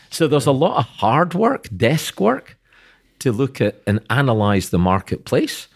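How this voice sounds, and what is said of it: Accented speech. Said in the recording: “with your accent, I almost thought you said heart work”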